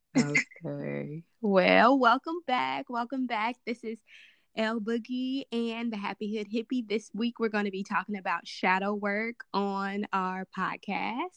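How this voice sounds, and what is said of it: Slightly raspy voice. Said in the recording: “This is the first time I've opened my mouth this morning, so my voice is a little raspy.”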